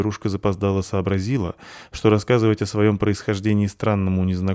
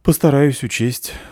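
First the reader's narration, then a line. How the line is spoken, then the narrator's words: Sighing young woman. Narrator (Russian): вздохнула девушка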